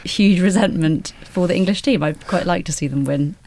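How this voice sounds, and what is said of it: Scottish accent. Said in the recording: “I also grew up in Scotland ... Hence the accent.”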